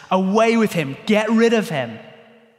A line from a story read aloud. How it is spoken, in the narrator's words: the crowds in Jerusalem shout at Jesus